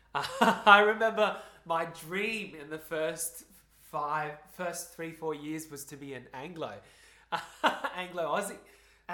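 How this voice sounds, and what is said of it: Broad Australian accent. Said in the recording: “I have this broader accent now... Hyper-Occur accent, which all Asian Australians have”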